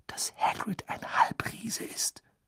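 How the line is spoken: Whispered. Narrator (German): wisperte

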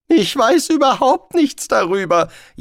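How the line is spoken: Whining. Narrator (German): jammerte Rincewind

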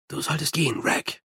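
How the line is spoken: Whispering. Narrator (German): flüsterte Mumm

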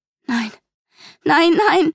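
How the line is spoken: Wailing lament. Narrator (German): jammerte ich

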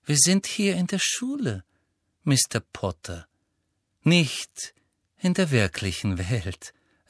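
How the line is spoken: Gentle. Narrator (German): sagte sie sanft

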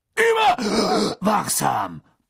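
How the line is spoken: Booming gruff. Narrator (German): polterte er

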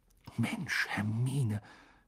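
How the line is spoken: Whisper. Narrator (German): flüsterte Harry

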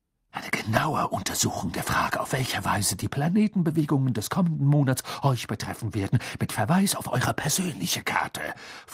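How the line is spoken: Stern hissing snap. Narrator (German): fauchte sie und klang dabei eher nach Professor McGonagall als nach ihrem üblichen windig-duftigen Selbst

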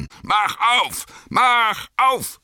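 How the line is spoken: Bellowing. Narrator (German): brüllte er

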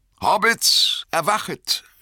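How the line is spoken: Calling out. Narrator (German): rief

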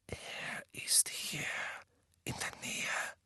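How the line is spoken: Whispered. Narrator (German): flüsterte Harry

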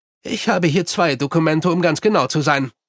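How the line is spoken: Plain. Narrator (German): sagte der Hauptmann

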